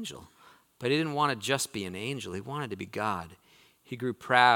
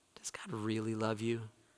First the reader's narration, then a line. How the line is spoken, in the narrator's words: the serpent whispered